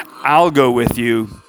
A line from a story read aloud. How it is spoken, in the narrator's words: Abishai replied